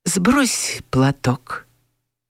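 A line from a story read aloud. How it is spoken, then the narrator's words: Whisper. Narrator (Russian): шепнул Степан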